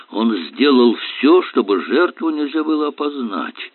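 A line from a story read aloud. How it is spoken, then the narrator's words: Muttered. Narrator (Russian): пробормотал Эллери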